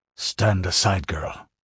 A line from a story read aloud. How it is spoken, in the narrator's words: he mumbled